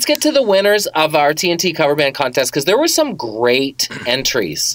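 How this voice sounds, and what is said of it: Usual voice. Nothing is said of it.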